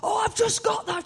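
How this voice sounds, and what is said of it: Imitates another person's voice. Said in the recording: “That's a terrible impression.”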